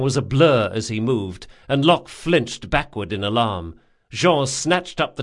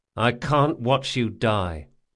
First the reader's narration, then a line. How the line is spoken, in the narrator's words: said Locke flatly